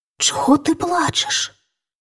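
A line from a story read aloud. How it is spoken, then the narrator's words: Princess, whispered question. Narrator (Ukrainian): пошепки спитала його принцеса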